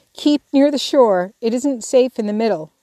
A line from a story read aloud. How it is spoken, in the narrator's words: he shouted back